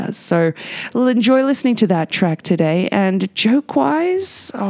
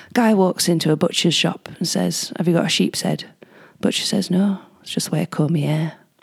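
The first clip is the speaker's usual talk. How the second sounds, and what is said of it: Put-on northern English accent. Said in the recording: “You have to deliver this in a northern accent”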